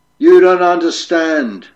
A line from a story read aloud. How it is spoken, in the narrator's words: roared the captive